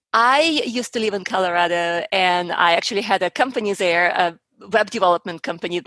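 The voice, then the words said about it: Accent like Black Widow character. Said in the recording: “You sound like a little bit more Natasha Romanoff than ... the Black Widow.”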